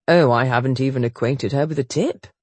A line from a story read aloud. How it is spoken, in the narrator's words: Chase said merrily